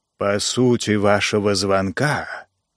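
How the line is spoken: Rustling, snake-like voice. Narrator (Russian): произнес Холлис шелестящим голосом, и Джо показалось, что куча змей переползают друг через друга

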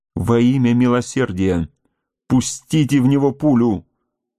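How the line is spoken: Horrified exclamation. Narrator (Russian): воскликнул Дункан, с ужасом

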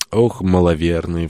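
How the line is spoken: Sigh. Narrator (Russian): вздохнул он

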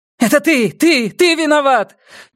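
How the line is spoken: Sudden shout. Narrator (Russian): неожиданно выкрикнула она

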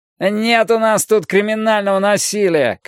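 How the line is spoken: Shouted from the back. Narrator (Russian): крикнули с задних рядов

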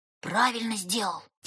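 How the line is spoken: Soft whisper in ear. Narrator (Russian): тихо прошептал Женя на ухо Вульке

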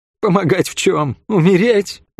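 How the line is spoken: Bitter laugh. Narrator (Russian): горько рассмеялась Хлоя

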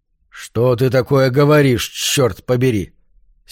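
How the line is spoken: Angry roar. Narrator (Russian): сердитым голосом взревел Марш

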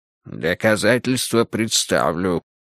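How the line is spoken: Grim declaration. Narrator (Russian): мрачно заявил Буллин

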